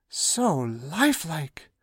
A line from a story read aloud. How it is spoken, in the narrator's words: muttered the Duke